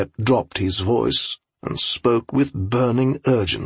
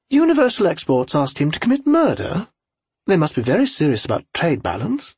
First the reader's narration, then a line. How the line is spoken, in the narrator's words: Agnes said playfully